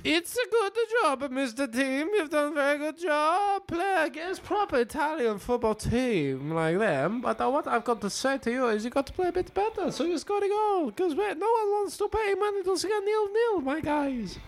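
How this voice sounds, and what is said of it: Unclear put-on foreign accent. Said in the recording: “I don't know what accent that was entirely. ... Argentina.”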